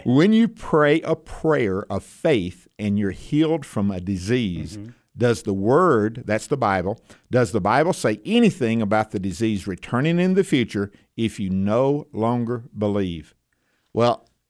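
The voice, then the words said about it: Noticeable regional accent. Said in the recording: “Make sure that with my accent, you get it correctly. Healing. ... So you weren't roping a horse or cow.”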